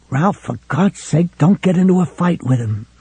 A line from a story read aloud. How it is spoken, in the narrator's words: McGovern hissed